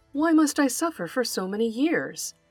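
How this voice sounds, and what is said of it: Sad, plaintive voice. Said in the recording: “brayed the donkey in a sad voice.”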